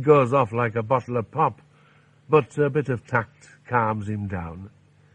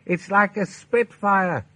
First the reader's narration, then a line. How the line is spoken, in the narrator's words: he shouted